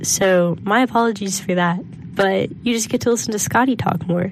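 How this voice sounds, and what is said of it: Congested, scratchy voice. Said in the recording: “my throat has decided to be very scratchy ... I'm very congested”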